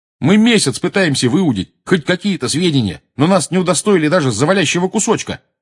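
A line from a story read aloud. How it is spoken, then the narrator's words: Shout. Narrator (Russian): крикнул Джордж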